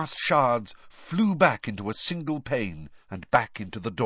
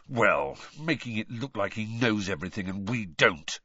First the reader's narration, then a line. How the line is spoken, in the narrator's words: Ron snarled